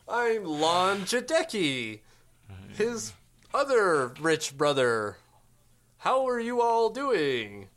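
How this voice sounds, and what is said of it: John Ledecky impression. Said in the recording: “my best John Ledecky impersonation. ... I think it's more nasally.”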